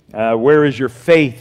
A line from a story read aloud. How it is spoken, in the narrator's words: he said